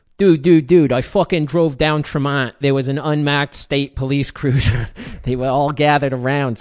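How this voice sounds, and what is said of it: Attempted Boston accent, self-judged poor. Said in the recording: “I have to try to read this one with a Boston accent. ... I can't do it. I'm sorry. This is awful.”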